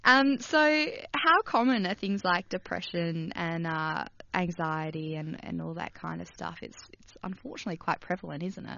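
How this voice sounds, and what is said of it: Husky, partly lost voice. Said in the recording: “losing my voice here and there ... I'm husky today.”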